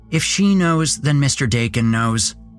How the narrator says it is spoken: Alexa snapped

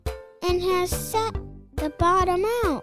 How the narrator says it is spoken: squeaked

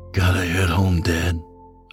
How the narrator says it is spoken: I whispered

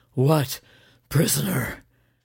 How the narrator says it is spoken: asked breathlessly

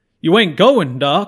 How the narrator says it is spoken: says the mayor with a howl

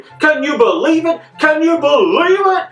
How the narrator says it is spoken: a match commentator scream

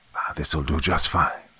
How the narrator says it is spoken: he whispered

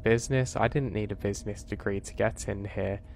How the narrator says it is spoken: He laughs and says

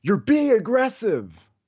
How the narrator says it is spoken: screamed

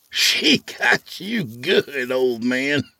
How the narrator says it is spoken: Skeet laughed

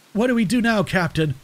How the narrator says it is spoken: Private Ellis asked, his voice shaking

